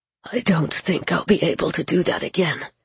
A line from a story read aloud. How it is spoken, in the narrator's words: he said hoarsely to Gabe